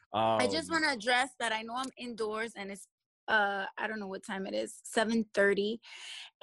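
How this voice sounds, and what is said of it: Brooklyn New York accent. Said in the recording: “her lovely, lovely, lovely accent, we from the hood ... Brooklyn, New York”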